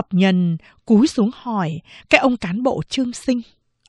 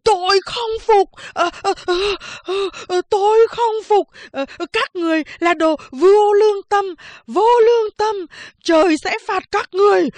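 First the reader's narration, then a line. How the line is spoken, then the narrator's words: Panting, screaming madly. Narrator (Vietnamese): Anh ta thở phì phò, gào thét như điên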